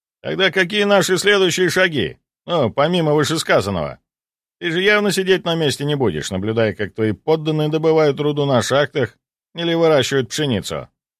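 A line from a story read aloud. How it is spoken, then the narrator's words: Snide, sarcastic. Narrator (Russian): ехидно произнес Жилин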